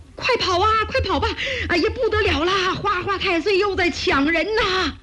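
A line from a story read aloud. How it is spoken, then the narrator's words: Shouting. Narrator (Chinese): 哭喊声连天呐，人们嘴里边还嚷着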